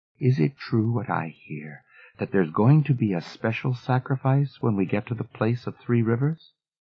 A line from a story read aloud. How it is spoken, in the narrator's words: She Who Knows said quietly